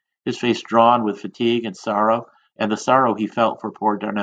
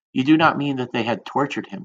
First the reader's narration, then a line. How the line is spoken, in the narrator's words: whispered